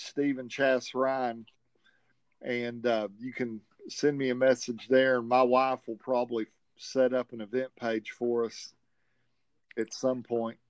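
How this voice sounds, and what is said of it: Southern American accent. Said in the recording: “with my southern accent, it might be hard to understand it”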